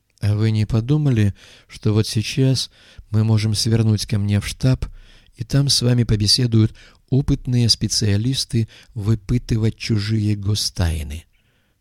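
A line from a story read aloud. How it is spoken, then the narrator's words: Calm inquiry. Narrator (Russian): спокойно поинтересовался Камаль Абдель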